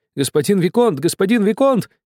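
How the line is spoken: Shouting. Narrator (Russian): кричал я

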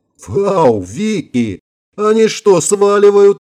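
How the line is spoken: Yelling. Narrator (Russian): завопил Шварц

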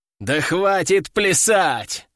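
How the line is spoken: Growled. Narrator (Russian): рыкнул он

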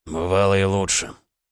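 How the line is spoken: Hoarse. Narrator (Russian): голос Олега звучал хрипло

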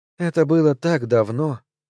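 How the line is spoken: Sighed. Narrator (Russian): вздохнула Клеанс

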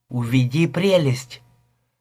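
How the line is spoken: Whisper. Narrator (Russian): прошептала

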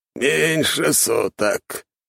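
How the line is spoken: Thoughtful hoarse rasp. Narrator (Russian): задумчиво прохрипел Чертков

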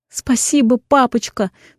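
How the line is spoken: Sobbing. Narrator (Russian): всхлипываю

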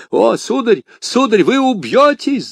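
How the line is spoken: Shouted. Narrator (Russian): закричал Планше

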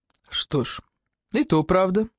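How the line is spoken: Impassive flat tone. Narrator (Russian): согласился Фрэнк непробиваемым тоном

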